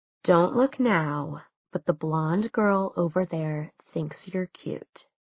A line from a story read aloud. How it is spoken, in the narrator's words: she whispered